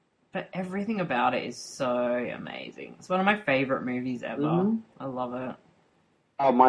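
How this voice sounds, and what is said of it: Usual voice. Nothing is said of it.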